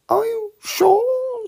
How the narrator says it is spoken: said Piglet anxiously

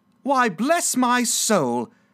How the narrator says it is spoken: cried Fred

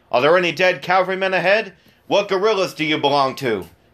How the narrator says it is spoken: grumblers, who out of spite shouted out

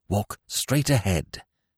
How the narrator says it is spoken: directed, still in the same intense whisper

